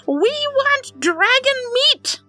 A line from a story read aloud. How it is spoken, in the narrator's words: shrieking at the tops of their lungs